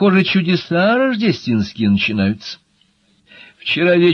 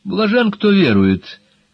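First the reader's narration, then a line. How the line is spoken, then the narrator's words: Sympathetic sigh. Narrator (Russian): Пиновская сочувственно вздохнула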